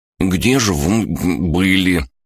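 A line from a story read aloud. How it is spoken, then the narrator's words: Mumbling with full mouth. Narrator (Russian): с набитым ртом промямлил Мэри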